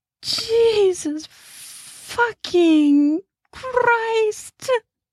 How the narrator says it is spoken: Viv screamed

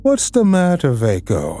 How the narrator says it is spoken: the older brothers asked him, laughing

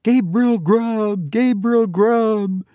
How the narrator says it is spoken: screamed a wild chorus of voices that seemed to fill the churchyard

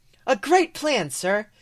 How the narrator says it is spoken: Angus says cheerfully

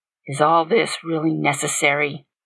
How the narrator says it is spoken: he said under his breath, obviously uncomfortable

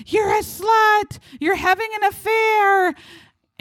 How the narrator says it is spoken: all screaming at her

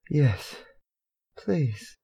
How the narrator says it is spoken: Harry panted

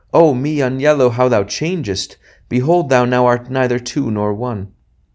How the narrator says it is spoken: each of them cried out

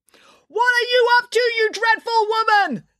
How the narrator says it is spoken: Nanny Piggins yelled

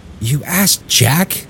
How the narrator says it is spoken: Tommy whispered to Willie

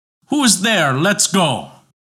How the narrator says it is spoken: He cried out in anger

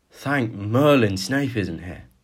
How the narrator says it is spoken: breathed out Weasley as he clutched at a stitch in his side

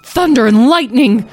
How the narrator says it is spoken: Tom yelled

